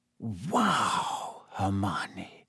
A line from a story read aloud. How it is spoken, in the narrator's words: Harry whispered